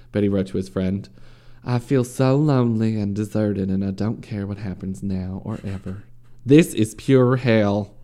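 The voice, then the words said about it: Put-on Southern American accent. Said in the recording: “I should do a southern accent.”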